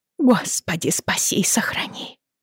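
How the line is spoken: Whisper. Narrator (Russian): прошептала она

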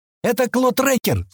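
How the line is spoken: Shouted. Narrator (Russian): закричала Адонара

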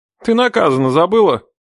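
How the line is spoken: Grumbling brother. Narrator (Russian): проворчал брат

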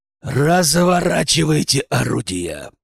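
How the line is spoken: Growled command. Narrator (Russian): прорычал я

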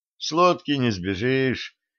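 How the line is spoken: Sighing. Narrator (Russian): вздохнул Максим

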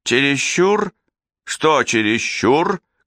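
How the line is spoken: Menacing question. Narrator (Russian): грозно спрашивает у него Шарль Лассаи

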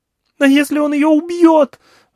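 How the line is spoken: Yell. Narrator (Russian): завопила Алька

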